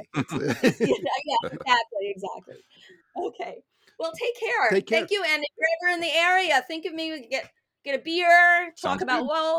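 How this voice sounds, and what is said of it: North Jersey East Coast accent. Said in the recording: “I thought I have an East Coast accent. ... You have a Philly accent. ... it's actually North Jersey.”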